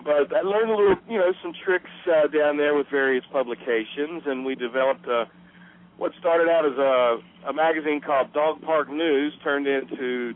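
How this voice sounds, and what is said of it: Southern US accent. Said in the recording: “You can probably tell my southern accent.”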